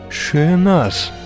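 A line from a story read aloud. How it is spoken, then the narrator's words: Moaned. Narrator (Ukrainian): простогнав Агловаль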